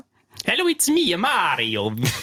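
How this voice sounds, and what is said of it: Funny put-on character accent. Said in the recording (German): “sehr seltsame Gestalt mit einem komischen Akzent”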